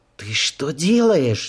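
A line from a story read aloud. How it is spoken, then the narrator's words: Prim disapproving hiss. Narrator (Russian): зашипела на нее строгая в правилах приличия Верна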